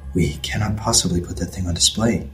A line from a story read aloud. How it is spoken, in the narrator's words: he whispered